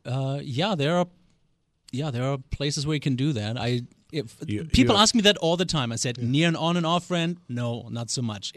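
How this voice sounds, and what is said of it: Slight German accent. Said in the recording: “a slight accent ... born and raised in Germany”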